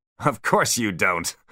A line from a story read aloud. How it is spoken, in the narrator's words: laughed John Spyro